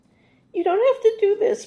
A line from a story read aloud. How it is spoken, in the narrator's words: Martin blurted